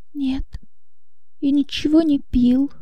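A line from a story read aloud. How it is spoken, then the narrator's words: Barely audible whisper. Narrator (Russian): едва слышно прошептал Иоганн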